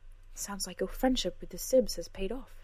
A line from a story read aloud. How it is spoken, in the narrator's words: she said softly